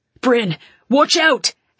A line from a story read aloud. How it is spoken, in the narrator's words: he shouted